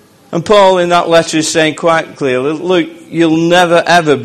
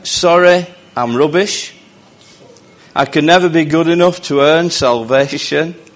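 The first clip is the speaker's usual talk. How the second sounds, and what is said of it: Imitates another person's accent. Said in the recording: “this is in like Lee accent”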